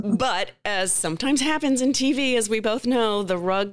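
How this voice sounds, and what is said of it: Usual voice. Nothing is said of it.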